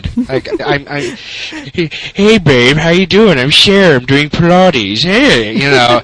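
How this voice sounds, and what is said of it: Imitates another person's voice. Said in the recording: “you can do the voice too”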